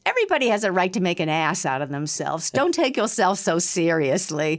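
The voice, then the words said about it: Imitates another person's voice. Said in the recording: “you sound a lot like Ruth Gordon. That's a good impression.”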